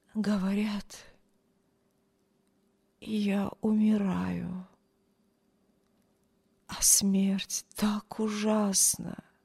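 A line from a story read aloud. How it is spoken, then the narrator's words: Widow's whisper. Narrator (Russian): прошептала вдова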